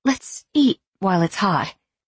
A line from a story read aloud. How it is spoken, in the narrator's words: she said tightly